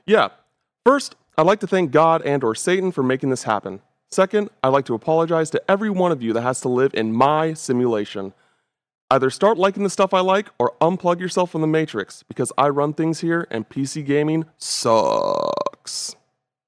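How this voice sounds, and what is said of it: Imitates another person's voice, subdued. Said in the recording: “my best Greg Miller impression by still being me ... It was a lot more subdued. There was like a calmness to it”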